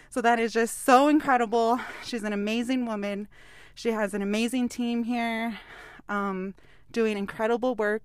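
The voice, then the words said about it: Slightly out of breath. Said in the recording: “I'm a little bit out of breath ... So I'm a little out of breath”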